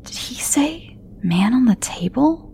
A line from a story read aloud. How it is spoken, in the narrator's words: Tom whispered to himself, loud enough that Raina could hear